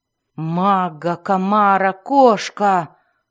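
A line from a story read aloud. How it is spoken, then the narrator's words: Roaring again. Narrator (Russian): снова взревел Белвар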